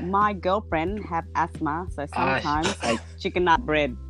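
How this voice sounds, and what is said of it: Filipino accent. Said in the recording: “my Filipino accent”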